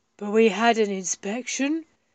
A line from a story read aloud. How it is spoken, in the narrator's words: said Milo gruffly